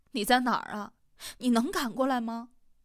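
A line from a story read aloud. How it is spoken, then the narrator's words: Tearful. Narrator (Chinese): 小张的声音带着哭腔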